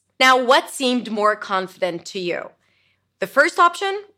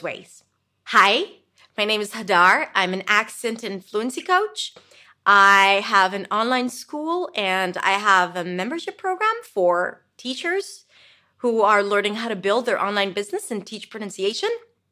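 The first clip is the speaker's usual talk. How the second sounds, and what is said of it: Rising, questioning intonation. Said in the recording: “When I go up, it feels like I'm asking for your permission.”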